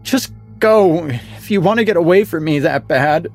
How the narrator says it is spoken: she sobbed, breaking the silence

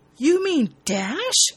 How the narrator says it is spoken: Elizabeth says excitedly

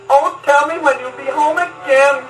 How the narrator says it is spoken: cried the fair young maiden

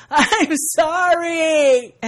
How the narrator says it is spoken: Kiana, solemnly breaks into tears, yells

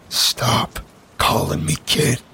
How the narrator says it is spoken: said through gritted teeth

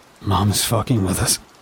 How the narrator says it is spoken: he mumbled

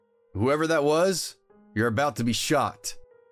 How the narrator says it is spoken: called out

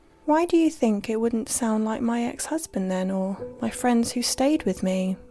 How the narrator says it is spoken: I asked her

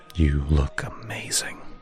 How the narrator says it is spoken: he whispered in my ear

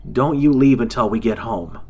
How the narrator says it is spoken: Jason shouted

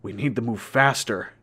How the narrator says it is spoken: Derek said, grunting as he pushed his boots deeper into the mud to get up a small hill

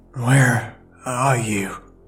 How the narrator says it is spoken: I asked weakly with parched lips

